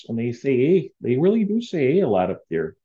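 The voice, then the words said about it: Put-on Canadian accent. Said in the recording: “This is my effort at a Canadian accent. You know, it's kind of like Upper Midwest, but a little more intense.”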